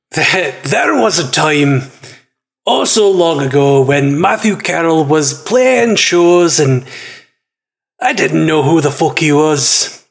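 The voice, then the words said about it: Fantasy dwarf character voice. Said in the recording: “I have to use an accent. My favorite accent, apparently. Which we all know is the dwarf.”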